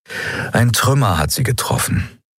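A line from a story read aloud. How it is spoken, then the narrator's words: Plain. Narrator (German): sagte der Fremde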